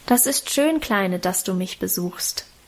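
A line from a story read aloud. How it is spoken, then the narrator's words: Plain. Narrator (German): sagte sie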